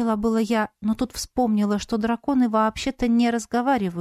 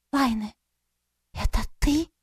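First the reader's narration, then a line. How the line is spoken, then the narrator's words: Female friend whispering. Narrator (Russian): прошептала подруга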